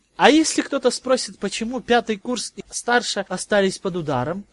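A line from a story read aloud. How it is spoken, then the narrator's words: Uncertain question. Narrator (Russian): неуверенно спросил Гарри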